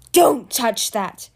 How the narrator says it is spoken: roared Pyrite

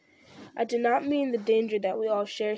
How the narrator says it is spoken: said Frodo

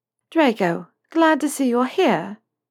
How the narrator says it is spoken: she purred, sarcasm oozing out of every pore

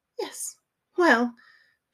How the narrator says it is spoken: she choked slightly

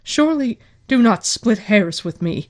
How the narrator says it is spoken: Varen snapped

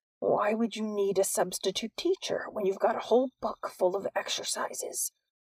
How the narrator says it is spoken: said in a dangerously soft voice

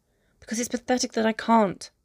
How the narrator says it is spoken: he snaps

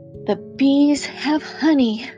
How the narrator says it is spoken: he sighed

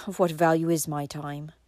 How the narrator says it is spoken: asked Valancy bitterly

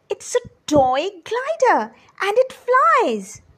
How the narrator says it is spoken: They jumped with excitement and exclaimed in glee

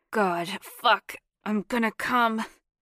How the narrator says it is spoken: grunted

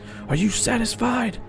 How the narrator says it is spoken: yelling

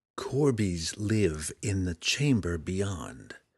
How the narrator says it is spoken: Drizzt began quietly, speaking each word slowly and distinctively

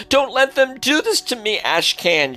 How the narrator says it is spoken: Jina pleaded, screaming in desperation

